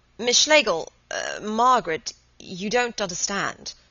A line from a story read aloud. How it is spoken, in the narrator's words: He began to stammer